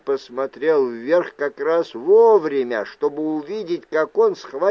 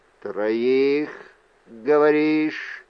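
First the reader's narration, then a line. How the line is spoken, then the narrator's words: Flat hoarse voice. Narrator (Russian): раздался бесцветный, хриплый голос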